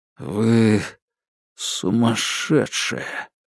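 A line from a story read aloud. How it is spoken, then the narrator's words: Forced out, defeated. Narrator (Russian): выдавил Игорь, понимая, что проиграл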